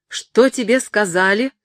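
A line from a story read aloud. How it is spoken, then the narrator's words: Loud shout from afar. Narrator (Russian): закричал он громко, едва только увидел его издали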